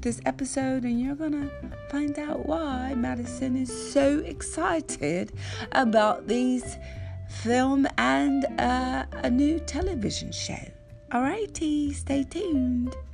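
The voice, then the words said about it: Put-on British country accent. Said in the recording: “clearly that is me doing my British accent... My friend said, you sound like a country English person.”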